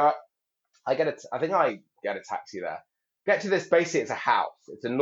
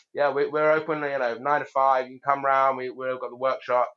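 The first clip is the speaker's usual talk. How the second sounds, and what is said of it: Attempted American accent. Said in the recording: “I can't do an American accent.”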